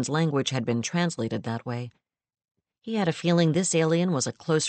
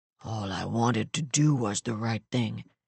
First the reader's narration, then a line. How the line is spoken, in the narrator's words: he muttered